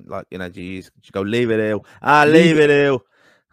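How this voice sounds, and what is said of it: Put-on Dublin accent. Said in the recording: “Do you think like a Dublin accent?”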